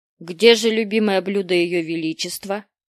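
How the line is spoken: Stern menacing question. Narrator (Russian): Грозно насупившись, спросил гофмейстер старика

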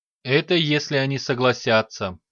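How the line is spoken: Muffled admiral. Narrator (Russian): глухо уронил адмирал

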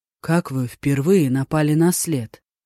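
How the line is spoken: Lifeless flat voice. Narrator (Russian): безжизненным голосом спросил он

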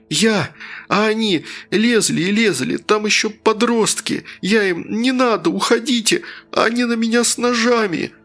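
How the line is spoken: Sobbing. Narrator (Russian): произносил Тим сквозь рыдание

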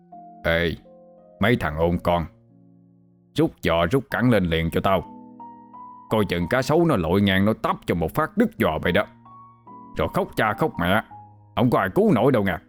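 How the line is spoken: Deep, low, scary voice. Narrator (Vietnamese): Ổng liền trợn mắt, hạ giọng thiệt là trầm, rồi hù

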